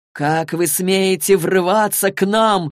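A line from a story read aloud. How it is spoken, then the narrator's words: Menacing shout. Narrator (Russian): грозно закричал Рафаэль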